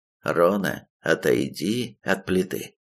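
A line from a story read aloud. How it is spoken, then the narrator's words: Even, commanding. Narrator (Russian): ровным голосом приказал я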